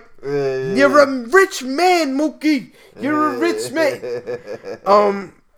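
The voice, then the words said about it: Shouting angry Danny Aiello impression. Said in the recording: “one of those angry men. He was shouting”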